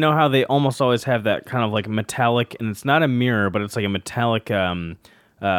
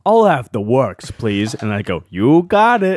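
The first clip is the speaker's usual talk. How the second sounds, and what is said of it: Same put-on character voice. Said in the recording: “Why do both of those have sort of the same character voice?”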